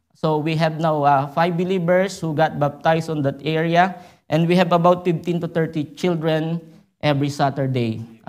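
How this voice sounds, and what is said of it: Filipino-accented English. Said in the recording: “I don't know if you understand my accent ... I'm a Filipino, and I'm not used to speak in English”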